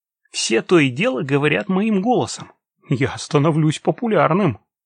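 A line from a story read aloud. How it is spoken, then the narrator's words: Laughing. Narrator (Russian): сказал, смеясь, Патрик Патрикович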